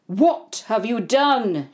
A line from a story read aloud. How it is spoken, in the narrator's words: thundered